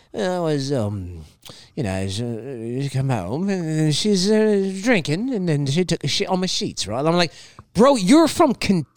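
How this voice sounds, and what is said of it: Mock British accent, drunken slurring. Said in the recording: “Like he has a British accent, but like also a little bit of Jack Sparrow ... How is it that you have a British accent? But why do you sound like you're drunk?”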